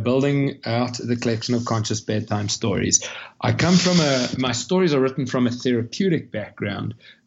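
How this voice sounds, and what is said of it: South African accent. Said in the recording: “you'll hear from the accent that I'm not a local. I'm from Cape Town, South Africa.”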